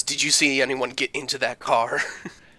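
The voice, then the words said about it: Exaggerated dramatic voice. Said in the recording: “In a real, like, dramatic voice.”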